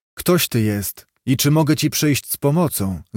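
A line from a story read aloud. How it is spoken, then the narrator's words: Plain question. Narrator (Polish): zapytał Gottfried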